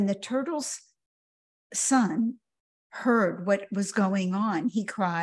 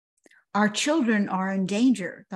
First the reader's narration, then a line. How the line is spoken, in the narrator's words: the hawk replied